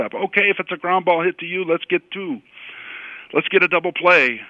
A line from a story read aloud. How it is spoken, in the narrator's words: you might yell out to the shortstop